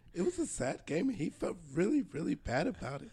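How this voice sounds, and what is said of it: Hoarse, failing voice. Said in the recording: “Sorry, I'm losing my voice.”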